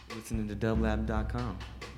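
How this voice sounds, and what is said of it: Announcer-style radio voice. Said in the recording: “Got my radio voice on.”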